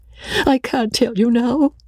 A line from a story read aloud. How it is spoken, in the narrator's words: sobbed Rebecca